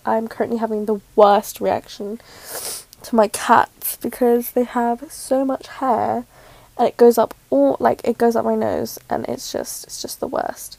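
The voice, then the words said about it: Nasal, congested voice. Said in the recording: “I sound a little nasally.”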